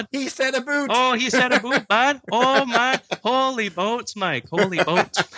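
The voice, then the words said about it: Exaggerated Canadian accent. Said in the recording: “when will the Canadian accent creep in? When will it creep in?”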